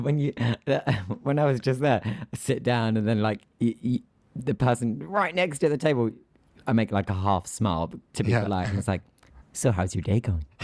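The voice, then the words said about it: British accent. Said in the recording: “the British accent sounds on steroids in the US ... the accent that is my everyday accent ... why do I sound like something from Harry Potter?”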